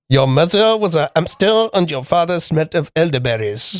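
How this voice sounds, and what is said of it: Slight parody French accent. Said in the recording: “Which has to be said with a slight French accent, done as a parody.”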